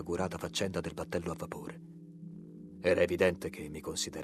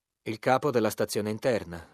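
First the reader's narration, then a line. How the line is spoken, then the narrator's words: Curt reply. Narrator (Italian): rispose seccamente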